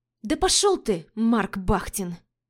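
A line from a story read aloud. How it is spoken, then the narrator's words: Hissed. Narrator (Russian): Зашипела я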